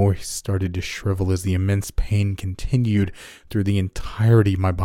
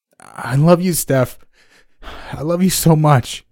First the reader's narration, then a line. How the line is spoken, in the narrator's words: continued as I sobbed